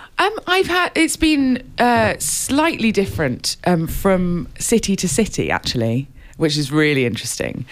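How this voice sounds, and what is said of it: British accent. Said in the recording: “You seem to have a British accent”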